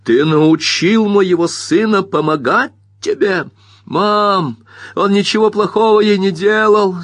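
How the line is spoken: Yelling. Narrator (Russian): завопил Бобби

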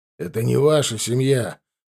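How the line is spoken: Regretful repetition. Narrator (Russian): повторил археолог с сожалеющим тоном

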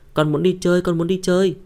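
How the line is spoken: Child shouting. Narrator (Vietnamese): tiểu ma vương này la hét

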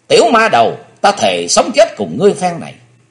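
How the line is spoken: Hateful chilling scream. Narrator (Vietnamese): Máu hận thù trong quyết quản của thiếu nữ sôi lên cùng độ, nàng hét nghe rợn cả người

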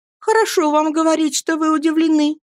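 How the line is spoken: Mother shouting. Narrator (Russian): закричала матушка

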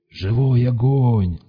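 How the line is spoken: Growling shaman. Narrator (Russian): зарычал шаман

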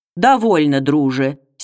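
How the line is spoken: Hoarse voice. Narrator (Russian): сепловатым голосом проговорил Ростислав Михайлович

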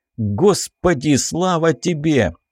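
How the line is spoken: Loud exclamation. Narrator (Russian): восклицает громко

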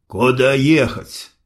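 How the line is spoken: Grumbling mutter. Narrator (Russian): буркнул султан

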